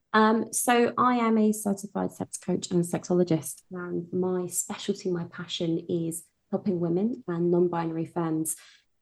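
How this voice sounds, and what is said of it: British accent. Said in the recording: “As you can tell from my accent, I'm from the UK.”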